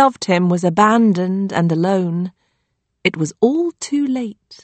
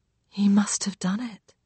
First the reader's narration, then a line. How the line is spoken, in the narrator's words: Lily says quietly, as if scared he might hear her accusing him